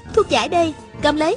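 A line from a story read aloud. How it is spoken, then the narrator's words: Shouting. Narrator (Vietnamese): Hà Thiết Thủ vừa ném vừa la lên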